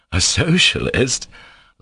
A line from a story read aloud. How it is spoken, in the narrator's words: laughed Alyosha